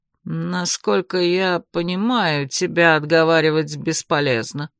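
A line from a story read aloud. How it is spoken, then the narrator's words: Dull, colorless voice. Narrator (Russian): каким-то блеклым голосом ответил цвак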